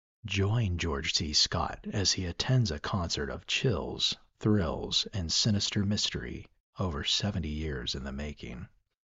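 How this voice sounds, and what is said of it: Movie trailer announcer voice. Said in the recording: “my little trailer voice”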